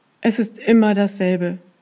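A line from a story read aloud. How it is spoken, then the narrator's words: Groaning. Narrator (German): stöhnte sie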